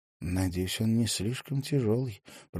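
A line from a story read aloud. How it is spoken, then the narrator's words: Mutter. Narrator (Russian): пробормотала она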